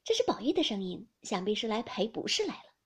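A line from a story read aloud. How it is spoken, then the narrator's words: Laughing. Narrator (Chinese): 紫娟听了一听，笑道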